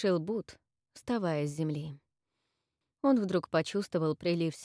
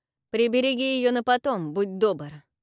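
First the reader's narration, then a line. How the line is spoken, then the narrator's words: Snorted. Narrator (Russian): фыркнул Авис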